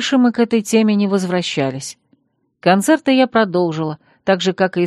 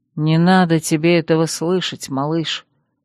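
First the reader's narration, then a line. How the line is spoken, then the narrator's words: Tired male voice. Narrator (Russian): устало ответил он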